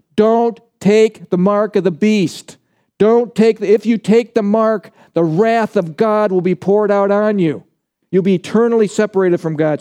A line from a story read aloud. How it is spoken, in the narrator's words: he's yelling out with a loud voice